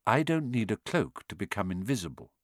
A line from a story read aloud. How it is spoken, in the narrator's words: said Dumbledore gently